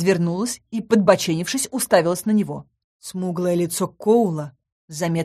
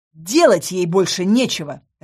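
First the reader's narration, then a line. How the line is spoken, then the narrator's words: Barked. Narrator (Russian): рявкнула я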